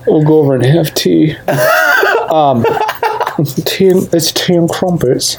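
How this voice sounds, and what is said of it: Weak put-on English accent. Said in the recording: “You need to work on that. ... Work on my English accent.”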